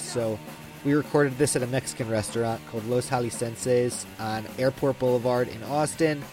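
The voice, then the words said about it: Sniffly, nasal voice from cold. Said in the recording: “I had a cold already, and you can tell I'm a little sniffly and nasal, and my voice sounds funny”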